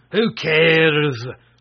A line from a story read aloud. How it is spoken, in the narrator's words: roared the sorcerer